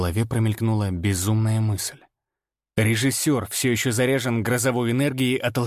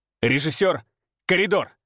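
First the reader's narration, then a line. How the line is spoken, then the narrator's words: Inner barked thought. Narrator (Russian): мысленно рявкнул я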